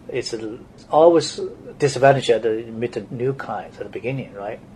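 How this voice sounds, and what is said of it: Strong Chinese accent. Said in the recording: “as a Chinese coming here to the U.S. ... even today my accent is pretty strong”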